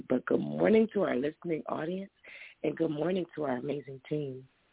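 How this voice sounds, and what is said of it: Strained voice from sore throat. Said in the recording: “Please excuse my voice. I am struggling with a sore throat this morning”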